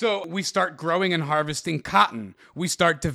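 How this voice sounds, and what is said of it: Usual voice. Nothing is said of it.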